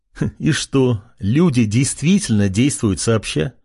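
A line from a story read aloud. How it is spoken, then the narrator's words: Short laugh. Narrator (Russian): хохотнул он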